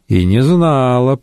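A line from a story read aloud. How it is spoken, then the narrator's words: Grumbled. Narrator (Russian): проворчала она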